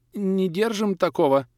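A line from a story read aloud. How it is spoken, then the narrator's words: Timid reply. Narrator (Russian): робко отозвался продавец, снизу вверх, глядя на внушительного покупателя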